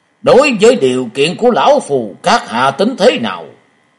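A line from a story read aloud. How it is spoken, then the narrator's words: Threatening voice. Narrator (Vietnamese): với giọng uy hiếp hắn nói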